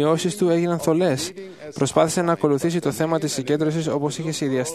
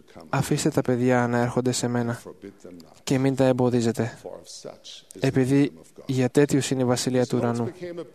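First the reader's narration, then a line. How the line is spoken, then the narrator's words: Spirit whispering. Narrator (Greek): το πνεύμα ψιθύρισε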